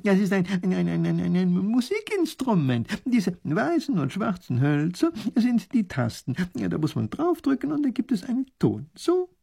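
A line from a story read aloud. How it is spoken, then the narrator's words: Laughing. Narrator (German): lacht der Professor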